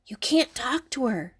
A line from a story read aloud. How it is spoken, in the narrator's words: Benny whispered